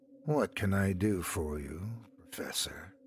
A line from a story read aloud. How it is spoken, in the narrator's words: His voice was low and soft enough that the little man felt compelled to lean in to hear